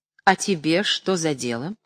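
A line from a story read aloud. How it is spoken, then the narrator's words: Dry. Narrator (Russian): сухо отвечал Павел Сергеевич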